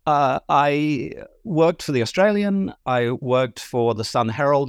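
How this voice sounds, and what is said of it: Slightly mixed English-speaking accent. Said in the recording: “my slightly mixed accent”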